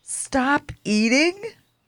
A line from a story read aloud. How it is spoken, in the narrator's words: Fuzz shouted